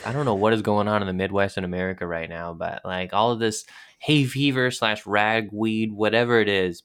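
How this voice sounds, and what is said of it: Congested, stuffy voice. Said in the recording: “hear it in my voice ... I am suffering from allergies ... I have so much congestion”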